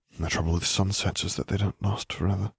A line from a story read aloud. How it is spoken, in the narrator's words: he murmured